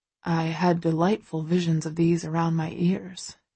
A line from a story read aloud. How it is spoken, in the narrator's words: he murmurs, staring down wistfully